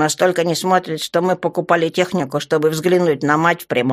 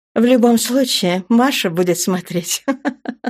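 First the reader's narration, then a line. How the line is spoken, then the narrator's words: Laughing. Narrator (Russian): рассмеялась Вереева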